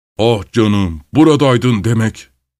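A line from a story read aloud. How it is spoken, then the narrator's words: Growling bear. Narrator (Turkish): diye homurdandı bir ayı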